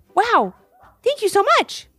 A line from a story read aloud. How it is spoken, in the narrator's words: barked the puppy